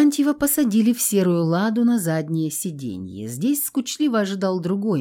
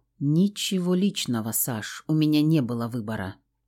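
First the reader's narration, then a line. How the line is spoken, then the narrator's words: Quiet voice. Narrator (Russian): тихо сказал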